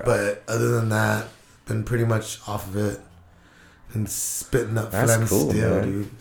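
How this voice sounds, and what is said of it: Congested, stuffed-up nasal voice. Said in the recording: “my nose gets so plugged up ... Just fucking stuffed up, dude.”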